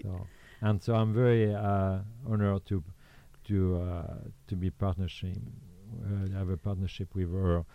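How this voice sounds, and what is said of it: Strong French accent. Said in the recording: “she always tease me for my accent. So she will give you the traduction... I feel like sometimes I might need to translate”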